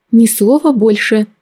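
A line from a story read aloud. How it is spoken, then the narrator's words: Mother's sudden plea. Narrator (Russian): неожиданно взмолилась мама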